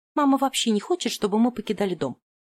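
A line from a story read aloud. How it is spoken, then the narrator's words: Snorting. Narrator (Russian): фыркнула Рэйчел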